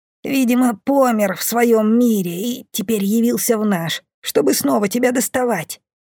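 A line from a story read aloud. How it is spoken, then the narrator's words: Wheezing from pillow. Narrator (Russian): просипела с подушки бомба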